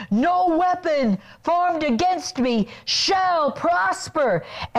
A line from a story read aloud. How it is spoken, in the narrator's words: shouting